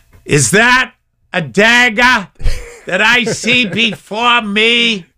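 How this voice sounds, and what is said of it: Boston accent. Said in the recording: “I had that Boston accent”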